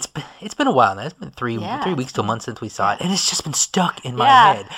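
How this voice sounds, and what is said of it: Usual voice. Nothing is said of it.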